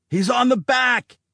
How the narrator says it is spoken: someone inside the Striker yelled

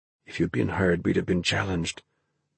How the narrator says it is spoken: Ben whispered back

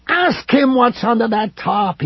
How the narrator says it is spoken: he cried

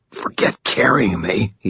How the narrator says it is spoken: rasped

